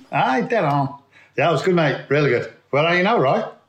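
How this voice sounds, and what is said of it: Put-on regional accent. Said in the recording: “You should do the whole podcast in that accent.”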